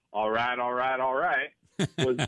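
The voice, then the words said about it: Imitates another person's voice. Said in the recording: “That's my impression there.”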